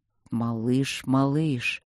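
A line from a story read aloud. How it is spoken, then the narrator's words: Anxious drawl. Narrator (Russian): тревожно протянул он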